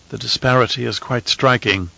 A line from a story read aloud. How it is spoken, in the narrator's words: Anirul said quietly